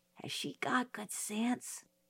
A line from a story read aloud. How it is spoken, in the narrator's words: I whispered to Jim